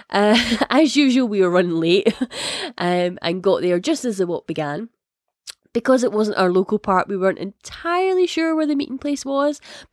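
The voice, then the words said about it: Scottish accent. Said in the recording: “if it isn't obvious from the accent, I am Scottish.”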